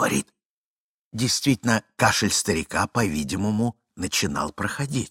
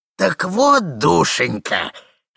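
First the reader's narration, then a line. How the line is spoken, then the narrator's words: Hoarse mournful singsong. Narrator (Russian): хрипел он на самый плачевный напев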